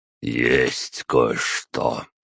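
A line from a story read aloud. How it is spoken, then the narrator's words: Sighing old man. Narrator (Russian): вздохнул дед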